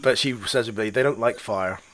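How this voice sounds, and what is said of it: Attempted West Country English accent. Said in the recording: “in her West Country accent, I could try it, but it might be terrible ... Pam Ayres ... Southwest Country”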